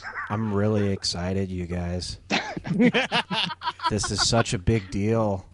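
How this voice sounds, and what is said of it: Impression of J Squarehead. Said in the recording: “my J Squarehead impression”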